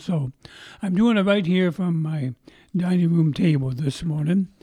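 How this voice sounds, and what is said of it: Strained, troubled voice. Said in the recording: “My voice is still giving me some trouble”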